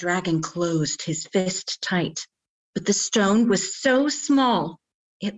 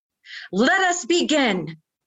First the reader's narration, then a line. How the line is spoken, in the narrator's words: yelled